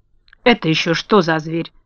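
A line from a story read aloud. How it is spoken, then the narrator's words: Angry witch asking. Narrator (Russian): сердито спросила злая волшебница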